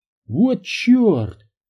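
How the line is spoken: Exclaiming. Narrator (Russian): воскликнул Санчес

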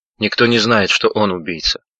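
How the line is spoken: Tired reply. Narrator (Russian): устало ответил рыжеволосый

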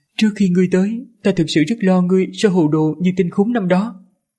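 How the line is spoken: Comforting smile, then sigh. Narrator (Vietnamese): Giảng đại gia mỉm cười an ủi, sau đó thở dài

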